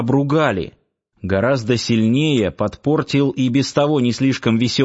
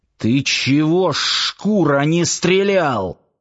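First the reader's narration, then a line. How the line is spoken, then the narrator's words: Hissing. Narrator (Russian): прошипел он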